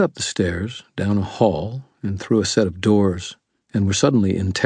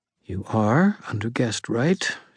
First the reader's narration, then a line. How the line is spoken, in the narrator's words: she said quietly